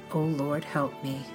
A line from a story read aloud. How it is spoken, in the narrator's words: Hart muttered softly